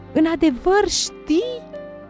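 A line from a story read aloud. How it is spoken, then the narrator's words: Shouting with joyful tears. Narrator (Romanian): strigă Ana cu ochii plini de lacrimi de bucurie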